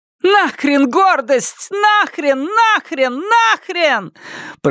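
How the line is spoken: Shouted. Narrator (Russian): прокричала она

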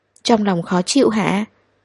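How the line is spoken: Soft question. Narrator (Vietnamese): anh nhỏ giọng hỏi

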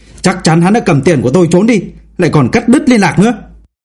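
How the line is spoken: Middle-aged man shouting angrily. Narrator (Vietnamese): Một người đàn ông trung niên quát tháo

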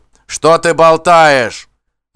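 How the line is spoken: Barked. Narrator (Russian): рявкнул Гудхорм

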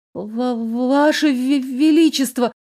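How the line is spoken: Stammering, forced out. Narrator (Russian): заикаясь еще сильнее, выдавила я

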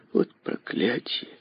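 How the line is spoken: Mutter. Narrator (Russian): пробормотала Аделаида

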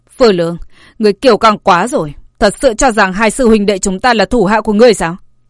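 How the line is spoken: Angry. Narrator (Vietnamese): Lý Huyền Áo tức giận nói

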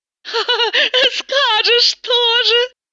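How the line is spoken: Laughing. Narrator (Russian): рассмеялась Тата

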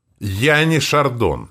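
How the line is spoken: Snapping retort. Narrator (Russian): огрызнулся я

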